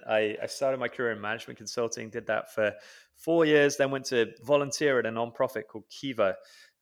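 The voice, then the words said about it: British accent. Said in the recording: “I grew up in the UK, as you can probably tell from my accent.”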